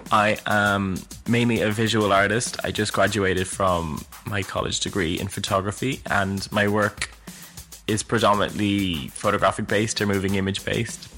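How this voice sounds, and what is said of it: Irish Dublin accent. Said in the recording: “I'm from Dublin, Ireland, hence why my accent might seem a bit funny to listen to.”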